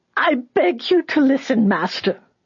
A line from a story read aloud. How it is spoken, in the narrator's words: the old woman cried out in a desperate screech